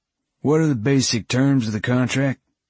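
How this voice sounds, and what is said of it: Twangy Southern Georgia accent. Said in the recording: “in his twangy Georgian accent”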